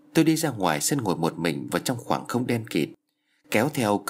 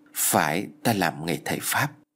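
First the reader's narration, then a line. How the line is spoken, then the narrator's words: Thoughtful, quiet answer. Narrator (Vietnamese): Bác Nam trầm ngâm rồi khẽ lắc đầu trả lời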